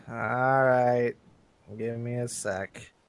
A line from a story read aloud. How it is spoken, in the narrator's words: she sighs and says